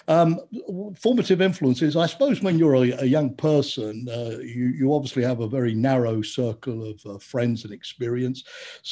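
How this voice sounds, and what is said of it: North London accent. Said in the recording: “the more that North London accent strengthens”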